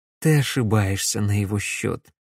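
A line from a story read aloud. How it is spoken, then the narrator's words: Gentle, smiling. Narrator (Russian): мягко улыбнулся Дмитрий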